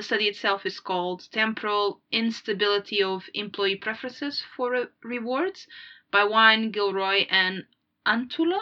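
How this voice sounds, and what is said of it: Unusual accent. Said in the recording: “my accent's a bit weird”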